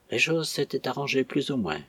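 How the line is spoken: Murmured. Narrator (French): murmura Catherine

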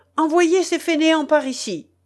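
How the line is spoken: Impatient shout. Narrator (French): cria le Saxon avec impatience

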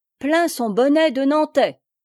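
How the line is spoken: Exclaiming. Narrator (French): s'écria Blaise

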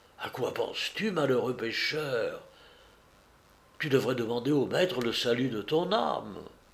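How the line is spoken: Low voice. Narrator (French): Saint-Pierre lui disait à voix basse

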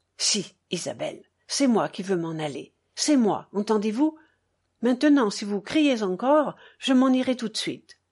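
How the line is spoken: Low, almost cold. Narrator (French): me dit, bas, presque froidement

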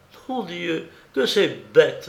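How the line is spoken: Exclaimed with shrill laugh. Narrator (French): s'écria-t-elle avec un rire strident

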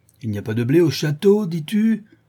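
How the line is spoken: Powerful voice over crowd. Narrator (French): s'écria le charron, dont l'organe puissant dominait le bruit de l'émeute

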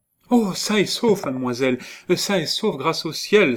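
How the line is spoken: Exclaimed. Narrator (French): s'écria Ascanio

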